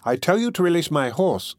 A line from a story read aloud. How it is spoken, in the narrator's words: retorted Phoebus impatiently